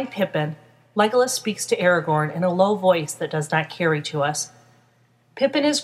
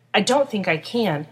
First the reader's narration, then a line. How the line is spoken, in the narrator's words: admits in a shaky voice